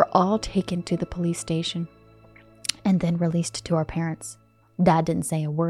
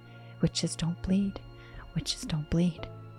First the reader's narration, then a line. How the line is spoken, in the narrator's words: Chuck kept whispering